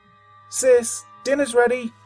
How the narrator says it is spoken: shouted

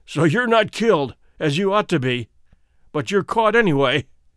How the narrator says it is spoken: he cried

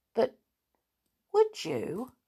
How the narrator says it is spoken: asked Peter eagerly

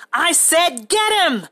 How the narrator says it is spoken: George yelled again

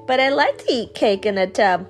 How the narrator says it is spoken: laughed the cat

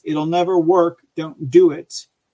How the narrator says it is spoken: Bella yelled at the staff in front of, yelled at Leslie in front of his staff

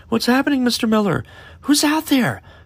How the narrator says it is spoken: one of the students cried out

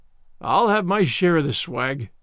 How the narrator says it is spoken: growled

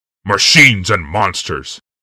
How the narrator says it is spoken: Commander Curtis Worthy growled

